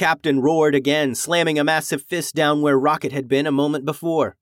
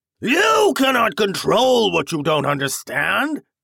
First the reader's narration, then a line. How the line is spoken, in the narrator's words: the captain bellowed